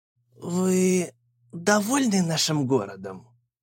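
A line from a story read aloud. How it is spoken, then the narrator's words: Forced out. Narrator (Russian): выдавил он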